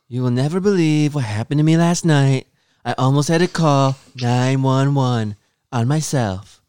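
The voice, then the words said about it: Imitates another person's voice. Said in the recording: “read it in your Donald Trump voice ... I need you to read it in your Donald Trump voice”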